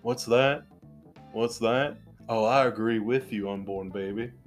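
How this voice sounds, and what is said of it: Imitates another person's voice. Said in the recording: “That's that was really bad Nick Cage.”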